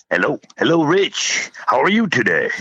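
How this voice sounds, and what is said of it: Radio DJ voice. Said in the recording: “How's that for my DJ voice? ... You got an excellent DJ voice.”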